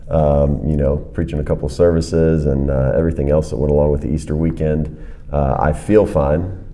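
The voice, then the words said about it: Worn, strained voice. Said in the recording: “probably a little worn thin ... As you can hear in my voice now ... I've got a little bit of a thing going on with the voice this morning”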